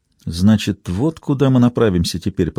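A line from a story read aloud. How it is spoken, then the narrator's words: Whisper. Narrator (Russian): прошептала Берил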